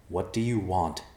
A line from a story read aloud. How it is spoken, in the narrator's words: Evercloud asked calmly